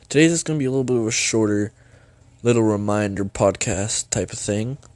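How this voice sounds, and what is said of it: Scratchy, sick-sounding voice. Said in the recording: “Pardon my voice, I'm a little sick actually... my throat's scratchy as heck... sound like crap”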